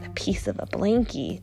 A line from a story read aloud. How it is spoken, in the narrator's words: Jake whispered